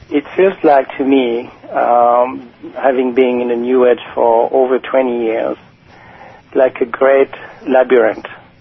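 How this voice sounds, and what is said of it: French accent. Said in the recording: “because of my French accent that you don't understand”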